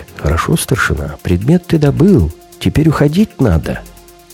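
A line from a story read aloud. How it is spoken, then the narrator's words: Quiet whisper. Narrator (Russian): тихонько так шепчет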